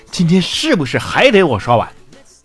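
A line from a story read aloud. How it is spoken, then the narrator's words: Yelling. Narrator (Chinese): 我就冲老婆吼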